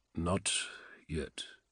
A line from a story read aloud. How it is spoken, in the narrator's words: he said again, his voice low and his eyes far away